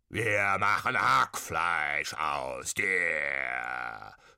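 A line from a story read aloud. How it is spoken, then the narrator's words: Nasty spirits bawling, croaking. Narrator (German): gröhlten und krächzten die gemeinen Säbelgeister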